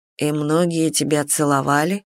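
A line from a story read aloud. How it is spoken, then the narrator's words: Cold question. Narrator (Russian): холодно поинтересовался Нарай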